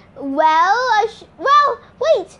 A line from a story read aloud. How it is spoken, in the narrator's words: I shouted